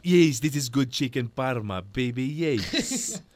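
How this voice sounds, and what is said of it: Imitating Rocco Siffredi's accent. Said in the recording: “everywhere in the world apart from Australia has Rocco Siffredi's accent ... Start talking like that to your mum all the time.”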